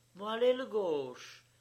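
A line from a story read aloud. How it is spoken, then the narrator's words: Eager exclamation, fair-haired boy. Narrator (French): s'écria vivement un blondin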